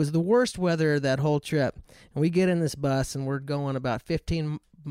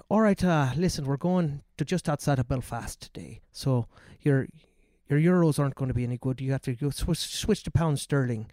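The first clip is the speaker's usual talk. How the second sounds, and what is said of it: Deliberately bad Irish accent. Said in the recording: “I'll do like the worst Irish accent ever”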